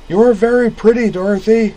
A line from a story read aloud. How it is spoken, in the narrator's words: he yelled